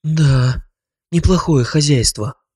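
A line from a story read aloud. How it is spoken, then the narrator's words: Breathy, very close. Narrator (Russian): выдохнула Таня, оказавшись неожиданно близко от моего лица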